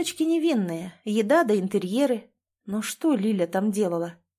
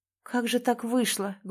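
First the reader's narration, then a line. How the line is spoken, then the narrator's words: Sad musing, man. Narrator (Russian): грустно размышлял мужчина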